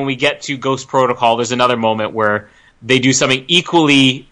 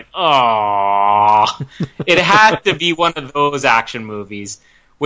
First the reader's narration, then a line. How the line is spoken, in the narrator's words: groaning